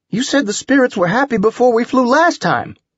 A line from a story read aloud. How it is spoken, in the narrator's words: Trip exclaimed